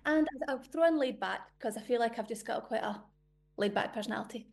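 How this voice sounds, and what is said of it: Scottish accent. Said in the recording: “Are you Scottish? ... I'm Scottish. I know it throws everybody. As soon as they hear the voice, they're like, I was not expecting that. ... What a gorgeous accent.”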